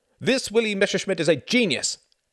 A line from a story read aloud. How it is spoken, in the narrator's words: cried Jorgen